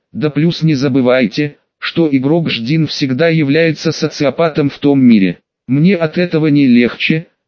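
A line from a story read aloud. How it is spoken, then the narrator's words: Muttered through gritted teeth. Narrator (Russian): сквозь зубы процедил Олег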